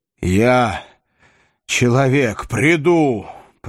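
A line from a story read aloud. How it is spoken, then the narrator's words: Growl, shapeshifter. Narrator (Russian): прорычал Солли из Шайнхольма, изменчивый перевертыш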